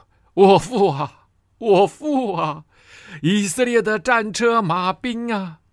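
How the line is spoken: Weeping. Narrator (Chinese): 以色列王约阿施伏在他脸上哭泣说

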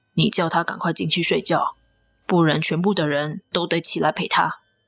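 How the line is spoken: Low voice. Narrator (Chinese): 学长低声的跟我说

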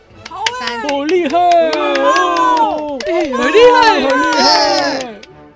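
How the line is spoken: Crowd cheering. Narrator (Chinese): 所有动物们纷纷叫好

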